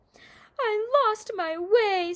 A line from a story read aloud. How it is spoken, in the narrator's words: sobbed Tall